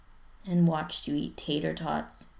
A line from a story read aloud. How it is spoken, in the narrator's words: Spencer says sadly